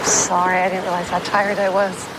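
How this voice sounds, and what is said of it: Australian actor doing American accent. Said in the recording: “listening to a whole bunch of Australian people sound American right there. Every single person you heard there is an Australian or New Zealand actor, actress who is pulling off an American accent.”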